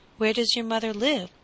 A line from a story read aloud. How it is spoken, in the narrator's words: asked the squire, in a kindly tone, for he had already forgiven Little Boy Blue